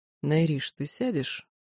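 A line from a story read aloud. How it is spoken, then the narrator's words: Tired question. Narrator (Russian): устало спросил Даррен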